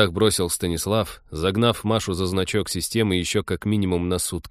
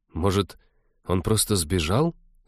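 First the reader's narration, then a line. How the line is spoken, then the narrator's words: Timid suggestion. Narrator (Russian): робко предположила Кира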